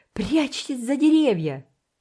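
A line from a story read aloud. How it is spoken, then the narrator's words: Loud shout. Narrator (Russian): громко крикнул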